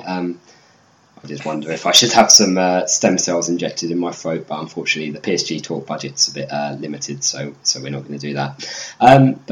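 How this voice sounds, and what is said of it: Croaky, hoarse voice. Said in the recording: “I sound a bit croakier than usual. My voice is in a similar condition to Neymar's metatarsal”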